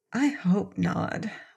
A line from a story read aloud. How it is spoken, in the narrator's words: whispered Trot to Cap'n Bill, so softly that the orc could not hear her